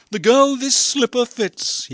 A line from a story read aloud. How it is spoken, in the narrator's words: he cried